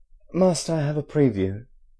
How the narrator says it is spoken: Harry exclaimed

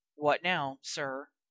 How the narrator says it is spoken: he heard himself mutter

